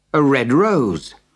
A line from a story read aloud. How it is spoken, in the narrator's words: exclaimed